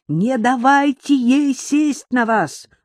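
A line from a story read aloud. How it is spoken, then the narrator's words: Shouted. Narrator (Russian): успел выкрикнуть Купер-старший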